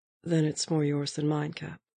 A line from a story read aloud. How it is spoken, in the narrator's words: James said evenly, after a very slight pause